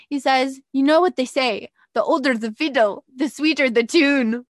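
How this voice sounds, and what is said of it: Attempted Irish accent. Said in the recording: “with his Irish accent ... I can't even do the Irish accent. I'll try. I'm going to try an accent.”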